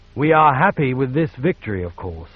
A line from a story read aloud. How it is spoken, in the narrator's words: the Emperor said